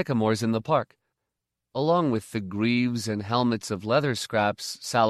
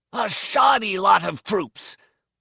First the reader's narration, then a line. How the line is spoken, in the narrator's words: growled